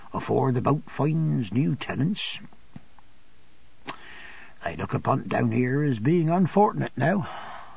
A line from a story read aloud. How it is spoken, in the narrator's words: Peggotty in a low voice